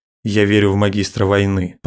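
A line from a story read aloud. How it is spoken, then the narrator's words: Grumbling. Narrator (Russian): проворчал Абаддон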